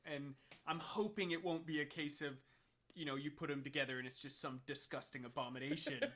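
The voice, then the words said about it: Thick Texan accent, Leicester touches. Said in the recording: “of any accent that you could start to like adopt, you've taken on Leicester ... it's a thick accent, but then I've spent most of my life in Texas ... quite a thick accent”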